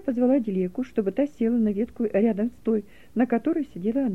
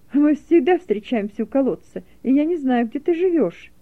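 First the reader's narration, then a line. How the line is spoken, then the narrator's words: Laughing. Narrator (Russian): засмеялась Фернелла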